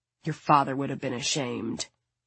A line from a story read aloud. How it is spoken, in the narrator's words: she snaps